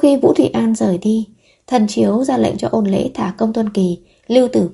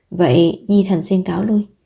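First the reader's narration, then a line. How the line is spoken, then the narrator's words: Dejected sigh. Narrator (Vietnamese): Vũ Thị An thở dài, ủ rũ nói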